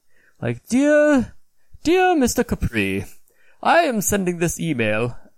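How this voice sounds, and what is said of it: Put-on accent. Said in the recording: “I gotta watch my accents”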